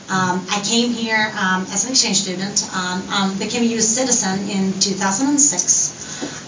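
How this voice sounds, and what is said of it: Swedish accent. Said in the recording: “I'm originally from Sweden, hence the accent.”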